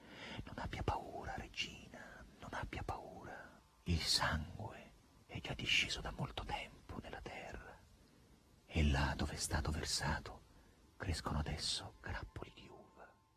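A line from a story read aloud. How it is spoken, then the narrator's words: Two voices whispering. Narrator (Italian): Due voci le sussurrarono in tutte e due gli orecchi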